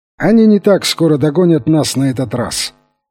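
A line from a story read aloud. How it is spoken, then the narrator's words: Cheerful exclamation. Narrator (Russian): весело вскричал он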